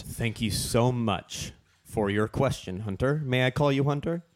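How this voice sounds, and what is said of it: Mock presidential voice. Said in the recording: “in your best presidential voice”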